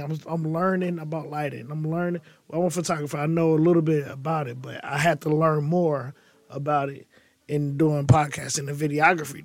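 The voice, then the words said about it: Slightly raspy voice. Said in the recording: “My voice is a little raspy because, you know, I've been coughing.”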